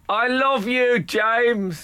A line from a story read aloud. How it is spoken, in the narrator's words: shouted